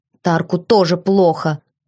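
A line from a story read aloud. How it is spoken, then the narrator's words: Grumbled. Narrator (Russian): пробурчал он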